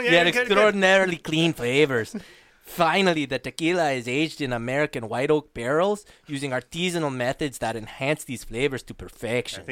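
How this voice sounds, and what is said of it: Cartoon character voice impression. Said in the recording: “great Speedy Gonzales impersonation”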